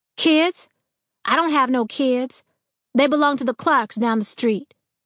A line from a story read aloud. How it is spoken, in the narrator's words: She said loudly